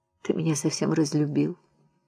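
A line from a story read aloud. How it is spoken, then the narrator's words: Speaking through tears. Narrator (Russian): Она говорит сквозь слезы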